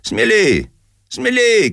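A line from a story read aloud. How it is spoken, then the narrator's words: Shouting. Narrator (Russian): кричал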